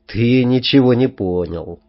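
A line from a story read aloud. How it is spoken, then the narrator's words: Affectionate reply. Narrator (Russian): ласково ответила Танюшка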